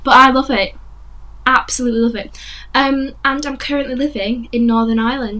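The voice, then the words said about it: West Yorkshire English accent. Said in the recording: “I'm from England, West Yorkshire, as you can tell by the accent.”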